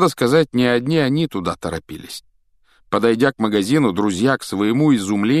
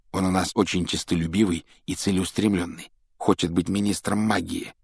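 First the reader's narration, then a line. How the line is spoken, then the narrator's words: Low-voiced explanation. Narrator (Russian): объяснил Рон вполголоса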